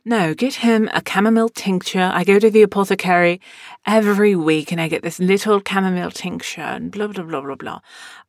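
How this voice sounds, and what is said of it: Imitates another person's accent. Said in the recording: “Probably doing a disservice to her accent”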